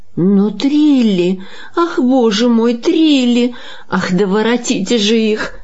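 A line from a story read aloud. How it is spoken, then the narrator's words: Nervous woman moaning. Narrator (Russian): застонала нервная дама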